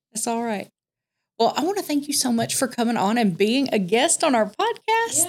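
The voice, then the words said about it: Southern US country accent. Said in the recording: “I'm right there with you with the country accent”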